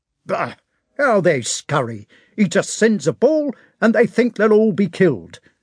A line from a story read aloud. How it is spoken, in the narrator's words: a sergeant was saying angrily and reproachfully